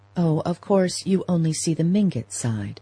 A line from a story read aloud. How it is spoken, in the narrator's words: answered in the sensitive tone that was her nearest approach to anger